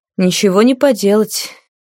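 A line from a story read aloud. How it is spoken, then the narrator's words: Gloomy sigh. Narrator (Russian): хмуро вздохнула герцогиня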